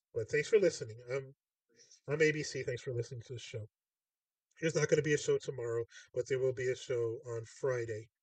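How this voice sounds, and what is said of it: Congested, stuffed-up voice with cough. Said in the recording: “I've had a pretty bad cough... my nose is just like stuffed up now... this is why I'm sounding the way I'm sounding”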